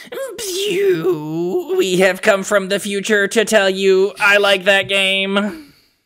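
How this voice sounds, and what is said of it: Alien robot voice. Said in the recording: “I was going to try to do like kind of like a theremin kind of singing voice ... just, you know, alien slash robot”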